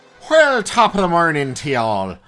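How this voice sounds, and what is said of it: Put-on Irish accent. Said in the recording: “I can't do the accent the whole time ... Introduce us in Irish”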